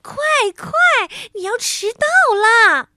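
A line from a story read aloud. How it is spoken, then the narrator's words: Chuckling old man. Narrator (Chinese): 圣诞老人却呵呵的笑着说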